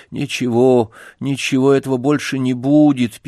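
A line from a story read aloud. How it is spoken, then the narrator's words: Sad muttering to himself. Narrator (Russian): печально повторил про себя Сергей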